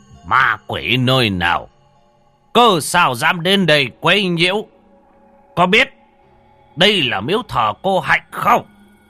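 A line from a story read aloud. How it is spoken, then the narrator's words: Loud imperious shout. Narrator (Vietnamese): lão thống bắt đầu dương oai mà quát to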